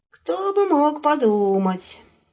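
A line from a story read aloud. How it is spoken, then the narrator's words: Gloomy mutter. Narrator (Russian): мрачно пробормотал волк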